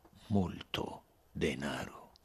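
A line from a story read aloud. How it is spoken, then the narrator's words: Soft persuasive voice. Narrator (Italian): ripeté con la sua voce morbida e persuasiva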